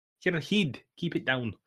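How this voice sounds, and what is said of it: Attempted Scottish accent, sounds Irish. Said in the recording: “Is that your attempt at a Scottish accent? ... This is more like Irish, I think.”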